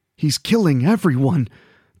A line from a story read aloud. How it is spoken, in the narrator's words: the bard whimpered